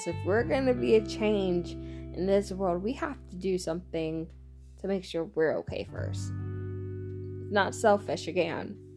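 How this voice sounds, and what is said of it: Texan accent. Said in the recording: “my Texan accent coming out”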